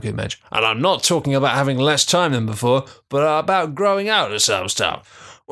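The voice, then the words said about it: Old man voice. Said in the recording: “I'm going to do this in an old man voice now”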